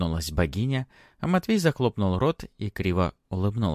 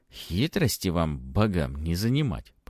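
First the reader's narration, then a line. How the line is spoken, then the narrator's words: Grumbling. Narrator (Russian): проворчал он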